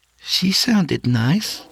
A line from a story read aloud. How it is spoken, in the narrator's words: she added nervously